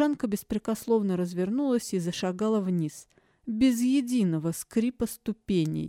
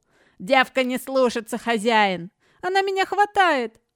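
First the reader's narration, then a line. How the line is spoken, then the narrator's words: Two voices shouting together. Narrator (Russian): одновременно выкрикнули Лисия и Бакота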